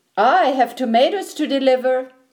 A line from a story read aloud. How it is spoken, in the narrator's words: shouted